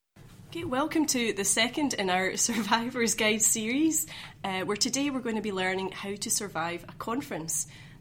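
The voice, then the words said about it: Put-on radio presenter voice. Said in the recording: “judging my radio voice”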